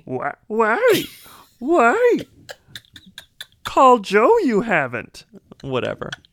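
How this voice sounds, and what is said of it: Imitates Baby Yoda character voice. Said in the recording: “your two best impressions have been Al Pacino and Baby Yoda ... Baby Yoda as Anna Paquin in The Irishman ... we've finally achieved your perfect impression”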